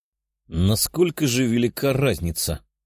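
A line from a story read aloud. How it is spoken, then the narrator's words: Muttering. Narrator (Russian): бормотал Тео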